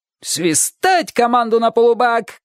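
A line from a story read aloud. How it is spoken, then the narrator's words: Old pirate's shout. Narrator (Russian): крикнул старый пират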